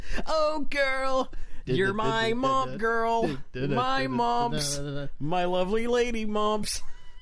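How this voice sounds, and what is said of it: Exaggerated 90s pop-punk singer voice. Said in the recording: “doing that voice,... It's very, 90s... That's very 182s.”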